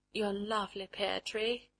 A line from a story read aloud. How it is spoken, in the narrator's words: she murmured